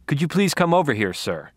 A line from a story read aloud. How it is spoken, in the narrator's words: Deborah ordered with truly veteran cop technique